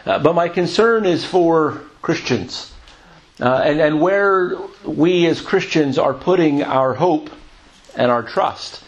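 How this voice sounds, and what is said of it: American accent. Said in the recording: “I'm an American. I come from the U.S. ... But you can tell by my voice, right? That's where I grew up.”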